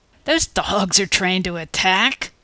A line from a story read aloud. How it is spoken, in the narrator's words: croaked in surprise